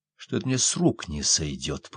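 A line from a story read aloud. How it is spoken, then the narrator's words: Whispering. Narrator (Russian): прошептал я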